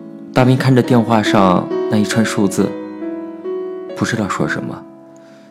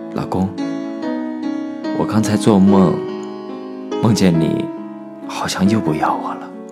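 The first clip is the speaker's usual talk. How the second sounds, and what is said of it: Very soft, sleepy voice. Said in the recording (Chinese): “好像刚刚睡醒的声音 ... 他用很轻很轻的声音说着”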